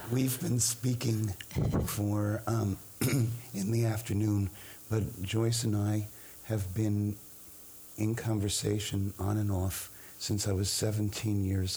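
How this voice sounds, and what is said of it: Hoarse, low, velvety voice. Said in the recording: “I developed a hoarse voice ... I think you sound very intimate and velvety, like a lovely frog down a well”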